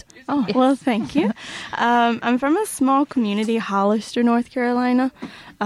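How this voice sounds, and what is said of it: Southern US accent. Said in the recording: “I'm from North Carolina, hence the accent. ... I love the accent. I just think the Southern accent is the best ever.”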